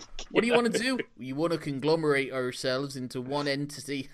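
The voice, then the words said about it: Put-on Bristol accent. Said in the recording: “in a Bristol accent, so it's slightly less scary ... because they've got Bristol accents, no one can take them seriously”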